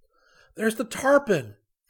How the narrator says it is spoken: exclaimed

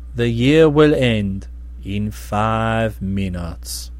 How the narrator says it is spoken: His smile was a bit sad as he answered slowly

